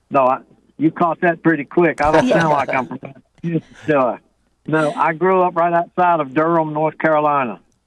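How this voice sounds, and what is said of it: Southern American accent. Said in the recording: “Beautiful, beautiful Southern accent you have, sir.”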